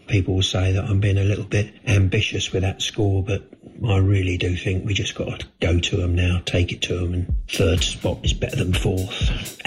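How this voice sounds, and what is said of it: Deflated, low-energy voice. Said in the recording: “as you can tell in my voice, I'm a little bit, well, I just feel like the rest of the country, a bit deflated”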